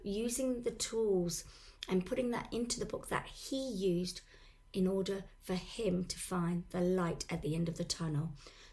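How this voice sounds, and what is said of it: Hoarse, strained voice. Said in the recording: “I do have a sore throat and I've lost my voice.”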